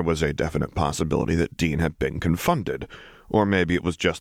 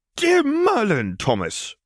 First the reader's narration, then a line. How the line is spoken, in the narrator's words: sputtered Draco